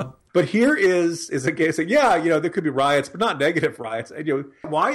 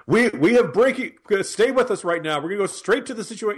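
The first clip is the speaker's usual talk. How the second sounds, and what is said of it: Breathless, panicky news-anchor voice. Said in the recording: “for a guy who generally sounds like he needs to breathe into a brown paper bag during any kind of breaking news ... that's my Wolf Blitzer impression”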